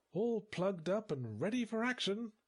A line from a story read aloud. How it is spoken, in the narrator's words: she said cheerfully